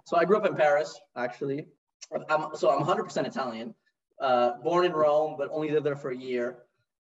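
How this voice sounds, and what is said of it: American accent. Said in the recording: “you're the only Italian with an American accent ... got the American accent, kept it”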